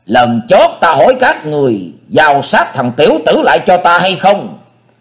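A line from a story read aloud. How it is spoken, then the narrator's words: Impatient repeated shouting. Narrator (Vietnamese): Tí Ma Thanh Diện không chờ cho đối thủ nói dứt lời, hét lần lần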